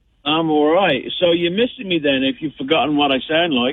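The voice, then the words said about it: Thick regional accent. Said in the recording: “I'm usually good with your accent... sometimes I need an interpreter”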